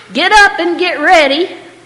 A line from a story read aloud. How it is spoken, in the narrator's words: she'd shout up the stairs